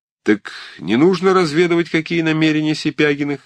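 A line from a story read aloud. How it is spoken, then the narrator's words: Cheerful. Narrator (Russian): весело промолвил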